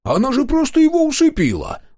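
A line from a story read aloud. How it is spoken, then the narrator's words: Exclaiming. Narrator (Russian): воскликнул Дозер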